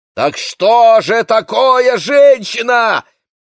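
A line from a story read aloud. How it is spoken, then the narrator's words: Sudden involuntary shout. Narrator (Russian): неожиданно для себя закричал Яков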